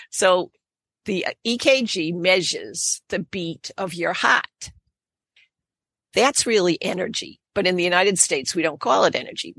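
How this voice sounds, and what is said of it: Boston accent. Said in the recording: “you're going to hear me talking with a Boston accent”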